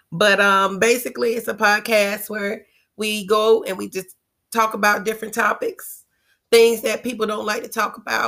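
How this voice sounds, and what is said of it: Hoarse voice from laryngitis. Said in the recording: “excuse my voice because I have a little bit of laryngitis”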